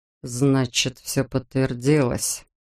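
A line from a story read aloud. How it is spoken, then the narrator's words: Muttered. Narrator (Russian): пробормотал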